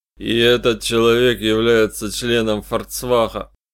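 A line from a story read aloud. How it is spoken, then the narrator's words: Through gritted teeth. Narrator (Russian): процедил сквозь зубы Листер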